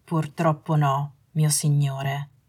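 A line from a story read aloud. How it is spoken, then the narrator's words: Apologetic. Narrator (Italian): disse Malfoy con tono di scuse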